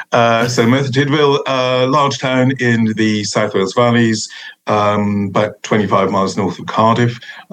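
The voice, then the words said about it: South Wales Valleys accent. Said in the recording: “I'm from Merthyr, as you can tell from the accent.”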